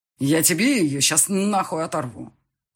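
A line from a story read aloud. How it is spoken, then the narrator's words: Growled. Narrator (Russian): рыкнул я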